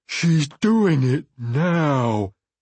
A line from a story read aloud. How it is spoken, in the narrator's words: he said in a low, sullen voice, his words muffled by swollen lips